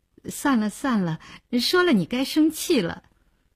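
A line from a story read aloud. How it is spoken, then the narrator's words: Hesitant, smiling. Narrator (Chinese): 林星欲言又止，笑笑说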